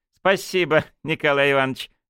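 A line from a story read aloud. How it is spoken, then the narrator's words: Wry snort. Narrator (Russian): хмыкнул Матвей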